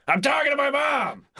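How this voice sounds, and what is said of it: Screaming loudly. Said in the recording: “screaming that”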